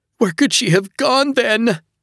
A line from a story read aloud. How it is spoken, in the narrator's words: his mom screeched